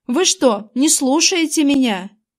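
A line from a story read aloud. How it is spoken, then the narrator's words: Shouting. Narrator (Russian): Эйприл кричала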